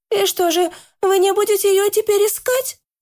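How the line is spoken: Girl sobbing, hurt. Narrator (Russian): Обиженно всхлипнула девушка

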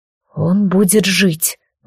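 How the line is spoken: Strained, forced out. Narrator (Russian): выдавил Алистар

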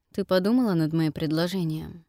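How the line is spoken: Low muffled question. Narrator (Russian): спросил глухо

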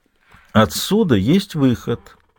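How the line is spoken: Melodious young female voice. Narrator (Russian): говорит девушка мелодичным голосом

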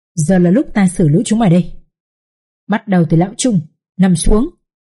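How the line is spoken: Stern commanding shout. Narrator (Vietnamese): uy nghi như một vị quan tòa, để quát

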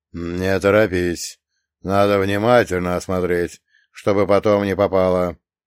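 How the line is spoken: Businesslike bass voice. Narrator (Russian): деловито пробасил второй

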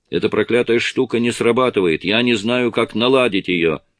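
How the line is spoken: Female shout. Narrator (Russian): Кэрри крикнула

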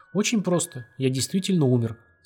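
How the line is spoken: Calm. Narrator (Russian): спокойно сказал Коковенко

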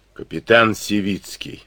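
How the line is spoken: Hoarse. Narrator (Russian): хрипло назвал он себя

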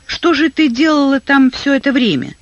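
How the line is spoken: Plain. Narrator (Russian): спросила ее Элизабет

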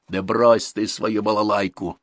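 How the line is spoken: Plain. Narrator (Russian): сказал ему Дуков

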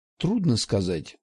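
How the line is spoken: Sighing. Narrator (Russian): вздохнул он

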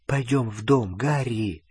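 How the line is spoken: Whisper. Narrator (Russian): прошептала Гермиона

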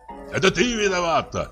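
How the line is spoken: Shouted. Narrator (Russian): крикнул ей Черяев

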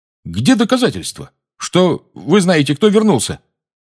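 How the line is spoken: Belligerent tone. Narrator (Russian): Воинственным тоном сказал светловолосый игрок Пуффендуя

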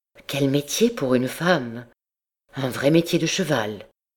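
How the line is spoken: Moved murmur. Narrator (French): Le père Piquedan ému murmura

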